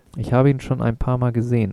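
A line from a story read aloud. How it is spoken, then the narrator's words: Girl answering, laughing. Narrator (German): antwortete das Mädchen lachend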